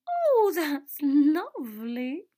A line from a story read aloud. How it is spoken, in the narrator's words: Myrtle sighed lasciviously